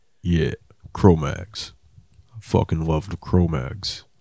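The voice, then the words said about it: Hardcore scene guy voice. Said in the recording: “your hardcore guy voice”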